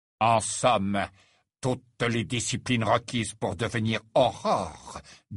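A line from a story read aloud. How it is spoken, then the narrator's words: Faint sneer. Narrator (French): dit Rogue, avec un imperceptible ricanement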